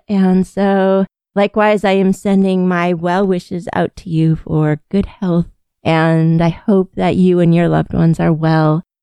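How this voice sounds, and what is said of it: Sick-sounding, strained voice. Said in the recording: “please forgive my voice. I'm getting over a bacterial infection post-COVID.”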